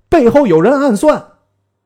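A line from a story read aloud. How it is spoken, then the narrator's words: Loud yell. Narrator (Chinese): 策阵上军士大叫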